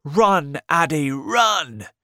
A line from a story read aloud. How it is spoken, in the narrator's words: shouting